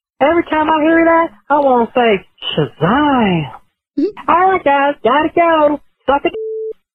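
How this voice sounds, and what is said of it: Impression of Gomer Pyle. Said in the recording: “Here's an impressionist ... This is Gomer Powell”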